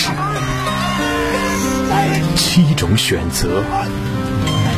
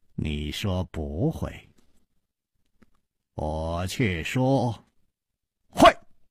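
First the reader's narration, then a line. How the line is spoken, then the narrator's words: Slow laugh. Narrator (Chinese): 楚留香缓缓地笑了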